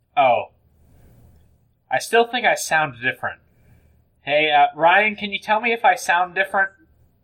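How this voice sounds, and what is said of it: Slightly higher-pitched voice. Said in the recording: “your voice is a little bit higher”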